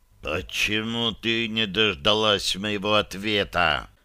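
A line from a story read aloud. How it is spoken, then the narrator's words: Furious hiss. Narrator (Russian): прошипел я, даже не пытаясь сдержать ярость, клокочущую в груди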